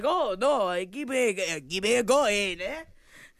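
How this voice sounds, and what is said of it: Put-on Australian-style accent. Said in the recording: “a hell of an accent ... Australian ... meets Palestine”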